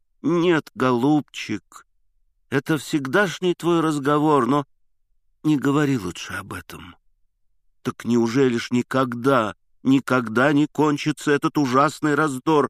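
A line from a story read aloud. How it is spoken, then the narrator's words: Sad exclamation. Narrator (Russian): вскричал я грустно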